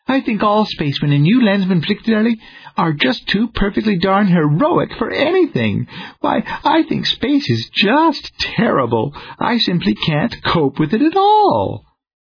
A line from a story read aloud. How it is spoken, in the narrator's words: his new partner cooed ecstatically